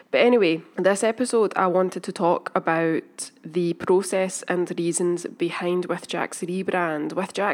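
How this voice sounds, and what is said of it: Sniffly, congested voice from a cold. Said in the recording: “I have a cold. ... So apologies for being sniffly and sounding weird.”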